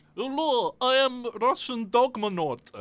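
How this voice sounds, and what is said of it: Exaggerated cartoon Russian accent. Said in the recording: “that's too much of a cartoon Russian accent”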